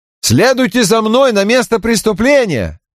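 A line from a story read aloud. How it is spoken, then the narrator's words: Shouted. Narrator (Russian): крикнул шоферу Крэмера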